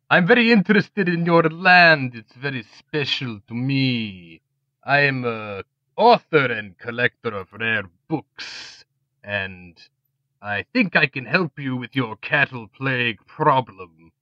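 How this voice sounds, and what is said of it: Unfamiliar foreign-sounding accent. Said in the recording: “That accent, I haven't heard it before.”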